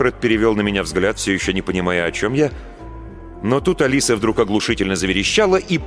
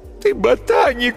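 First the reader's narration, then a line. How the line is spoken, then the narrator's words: Sobbing. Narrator (Russian): всхлипывала Алиса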